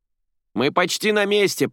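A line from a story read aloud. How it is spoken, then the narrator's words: Shout downward. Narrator (Russian): прокричала она вниз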